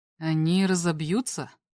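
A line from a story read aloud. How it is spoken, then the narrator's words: Barely audible inquiry. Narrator (Russian): еле слышно осведомился лорд Крип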